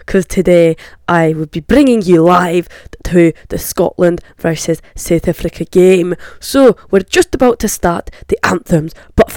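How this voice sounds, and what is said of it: Put-on Scottish accent. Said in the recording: “This is my Scottish accent”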